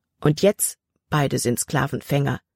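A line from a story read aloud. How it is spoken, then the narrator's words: Plain. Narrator (German): antwortete Jordan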